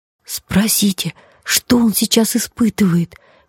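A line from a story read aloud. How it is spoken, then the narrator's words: Excited whisper. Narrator (Russian): возбужденно шепнула львица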